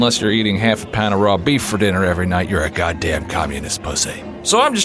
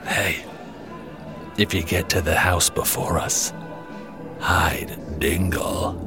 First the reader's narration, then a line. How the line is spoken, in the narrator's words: he whispers in my ear